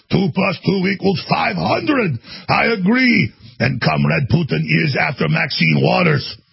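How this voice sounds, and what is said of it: Mock Russian accent. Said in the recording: “I need to listen to some of the Russian accents. I'm going to do a better job.”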